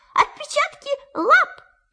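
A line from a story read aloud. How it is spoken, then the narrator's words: Excited squeal. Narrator (Russian): Пятачок даже взвизгнул от волнения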